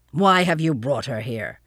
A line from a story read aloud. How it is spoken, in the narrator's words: he demanded roughly